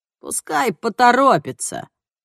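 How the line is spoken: Hoarse voice from afar. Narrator (Russian): раздался хриплый голос из дальнего угла

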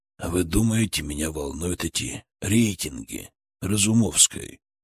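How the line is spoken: Quiet steely near-whisper. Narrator (Russian): Его голос был тихим, почти шепотом, но в нем была такая сталь, что, казалось, могла резать сам металл

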